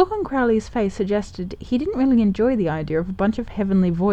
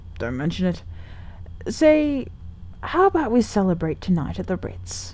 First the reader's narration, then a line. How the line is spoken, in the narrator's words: Aziraphale sighed happily